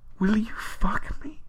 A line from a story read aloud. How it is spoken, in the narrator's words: You gasp